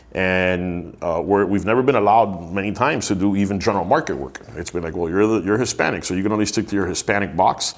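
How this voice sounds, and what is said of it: Miami Hispanic accent. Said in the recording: “I have an accent because I live in Miami”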